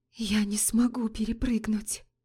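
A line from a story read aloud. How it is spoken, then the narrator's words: Whisper. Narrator (Russian): прошептала Лорея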